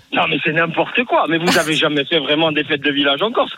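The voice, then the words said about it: Corsican French accent. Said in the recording (French): “l'accent corse”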